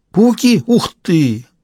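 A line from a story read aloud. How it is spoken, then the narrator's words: Excited exclamation. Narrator (Russian): воскликнула Ирина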